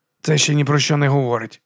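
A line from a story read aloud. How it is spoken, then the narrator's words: Grumbled. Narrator (Ukrainian): буркнув Леб'є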